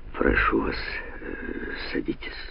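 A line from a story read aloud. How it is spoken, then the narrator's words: Hoarse. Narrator (Russian): Американист Бонетто наклонил голову и хрипло произнес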